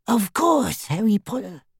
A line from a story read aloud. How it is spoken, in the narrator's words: whispered the little elf